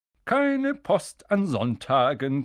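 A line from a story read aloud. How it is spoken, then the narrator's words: Cheerful reminder. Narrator (German): gemahnte er sie fröhlich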